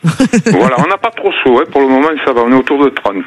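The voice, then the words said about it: Slight southern French accent. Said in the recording (French): “votre petit accent ... D'à côté d'Arles. Dans les Bouches-du-Rhône.”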